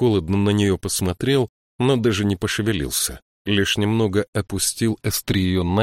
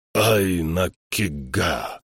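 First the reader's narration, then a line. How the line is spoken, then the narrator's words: Hoarse voice. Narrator (Russian): хрипло проговорил Норн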